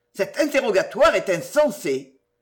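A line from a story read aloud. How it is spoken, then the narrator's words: Man exclaims. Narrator (French): s'écria-t-il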